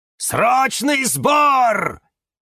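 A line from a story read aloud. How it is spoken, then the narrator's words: Shouting. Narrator (Russian): кричал кактус Кирилл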